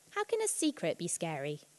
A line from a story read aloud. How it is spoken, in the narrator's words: ask scornfully, but really wanting very much to know